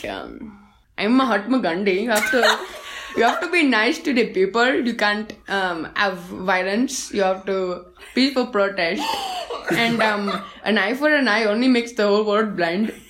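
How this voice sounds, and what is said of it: Put-on Indian accent. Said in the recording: “my Indian accent ... my Gandhi voice”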